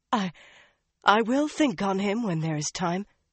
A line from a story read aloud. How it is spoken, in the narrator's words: she said breathlessly